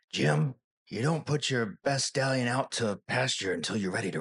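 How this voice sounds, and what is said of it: Impression of Star Trek's Bones McCoy. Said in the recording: “I talk like Bones McCoy from Star Trek.”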